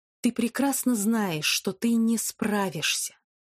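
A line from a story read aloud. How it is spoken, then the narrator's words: Whisper. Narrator (Russian): прошептал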